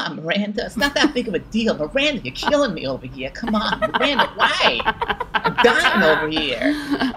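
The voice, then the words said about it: Imitates another person's voice. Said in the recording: “you look just like him when you do it ... That was a good impression.”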